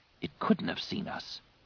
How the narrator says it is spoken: Ganner whispered

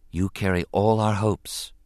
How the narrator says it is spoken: she said quietly

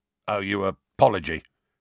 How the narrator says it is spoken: grunted a voice

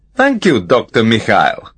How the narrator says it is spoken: commented Kamar dryly

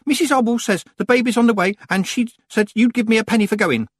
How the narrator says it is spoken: he blurted out

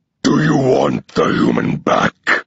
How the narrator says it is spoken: bellows

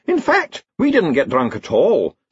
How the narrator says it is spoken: said the Chair of Indefinite Studies brightly

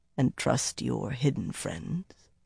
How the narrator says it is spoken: he asked softly, much too softly

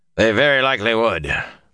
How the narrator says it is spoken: Hamar said dryly

